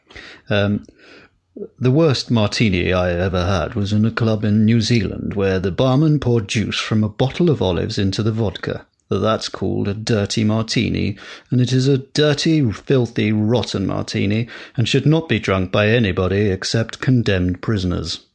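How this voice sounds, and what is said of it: Roger Moore impression. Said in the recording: “worst Roger Moore impression”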